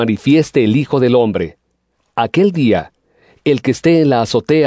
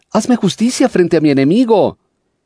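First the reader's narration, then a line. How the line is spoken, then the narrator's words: Persistent pleading widow. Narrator (Spanish): una viuda que no cesaba de suplicarle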